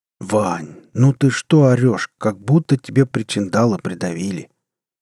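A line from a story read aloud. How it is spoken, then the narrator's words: Sleepy grumble. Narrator (Russian): сонно проворчал Горыныч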